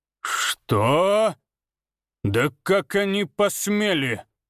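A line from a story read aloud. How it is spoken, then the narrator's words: Furious ringing roar. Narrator (Russian): император звенящим от ярости голосом проревел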